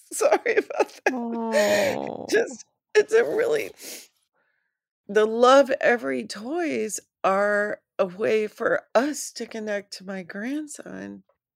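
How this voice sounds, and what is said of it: Teary, emotional voice. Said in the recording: “I'm a little teary myself”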